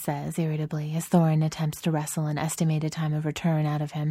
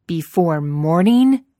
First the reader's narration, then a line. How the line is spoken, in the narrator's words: Thorin thunders